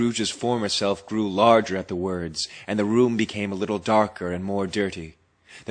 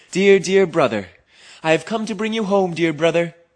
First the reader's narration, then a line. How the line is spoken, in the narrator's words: said the child, bending down to laugh